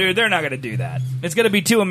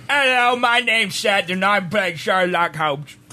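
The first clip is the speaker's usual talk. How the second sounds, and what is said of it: Bad put-on British accent. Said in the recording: “two American idiots trying to do British... That was awful... It sounds like you've been stung by multiple bees.”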